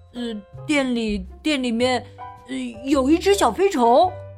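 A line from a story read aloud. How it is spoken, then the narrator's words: Stammering. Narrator (Chinese): 大卫结结巴巴的说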